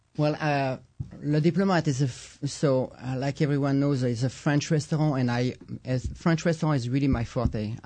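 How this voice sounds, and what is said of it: Thick French accent. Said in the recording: “you almost sound French ... I have a really thick accent”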